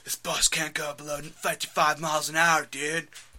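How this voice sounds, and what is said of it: Keanu Reeves impression. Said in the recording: “Name a Keanu Reeves movie. I'll do an impression from it.”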